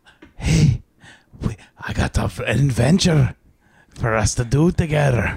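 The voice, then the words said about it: Put-on Scottish accent, Mexican tinge. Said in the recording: “you're making it Mexican ... I was doing a Scottish accent ... You got like a Mexican tinge on the end”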